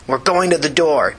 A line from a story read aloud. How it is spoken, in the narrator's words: Tina said angrily